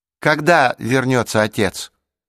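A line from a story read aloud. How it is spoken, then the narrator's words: Loud question. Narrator (Russian): громко спросила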